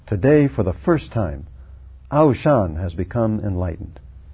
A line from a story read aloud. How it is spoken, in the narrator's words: Shui Feng suddenly had realization and cried loudly